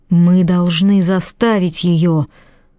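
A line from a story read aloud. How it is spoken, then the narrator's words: Cracking voice, hoarse cough. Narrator (Russian): У него сорвался голос, он сипло закашлялся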